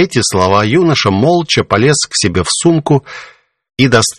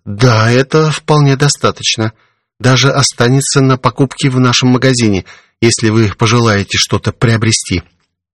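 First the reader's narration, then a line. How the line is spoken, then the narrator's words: Hesitant answer. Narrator (Russian): Лидия растерянно, и, чуть помедлив, ответила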